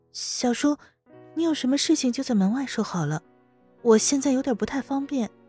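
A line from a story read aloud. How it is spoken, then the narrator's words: Quiet, low voice. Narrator (Chinese): 温思思小声说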